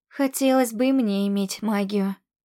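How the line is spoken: Breathless exhale. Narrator (Russian): выдохнула я

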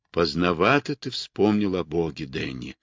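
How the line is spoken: Quiet. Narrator (Russian): тихо произнес Кэт

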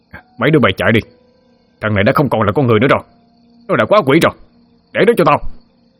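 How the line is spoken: Shouting man. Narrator (Vietnamese): Ông ta ngoái đầu lại la lên

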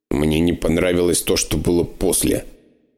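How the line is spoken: Grumbling. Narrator (Russian): проворчал я

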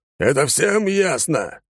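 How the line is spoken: Barked. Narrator (Russian): рявкнул он

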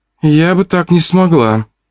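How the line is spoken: Sighing. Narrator (Russian): вздохнула Фомина

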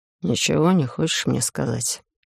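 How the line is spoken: Quiet question. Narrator (Russian): тихо поинтересовался Олаф

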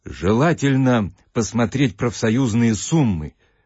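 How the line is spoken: Cheerful. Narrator (Russian): ответила комиссия, радостно улыбнувшись

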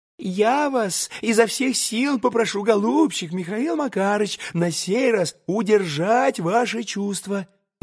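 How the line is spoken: Rapid whisper. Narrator (Russian): зашептал было скороговоркой товарищ прокурора

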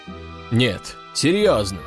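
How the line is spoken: Calm man. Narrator (Russian): спокойно проговорил какой-то важный мужчина

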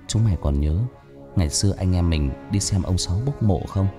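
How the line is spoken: Sad, low voice. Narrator (Vietnamese): Thằng Quân buồn buồn hạ giọng

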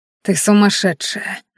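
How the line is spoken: Breathless exhale. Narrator (Russian): наконец выдохнул он

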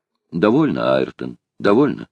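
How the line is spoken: Plain. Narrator (Russian): сказал он

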